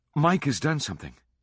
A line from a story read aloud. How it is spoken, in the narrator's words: said breathlessly